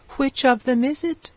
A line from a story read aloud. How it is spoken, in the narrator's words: asked anxiously